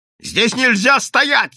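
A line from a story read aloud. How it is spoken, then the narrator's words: Shouting. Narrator (Russian): кричал инспектор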